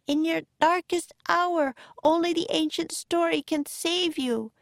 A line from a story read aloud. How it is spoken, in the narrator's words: cried Annie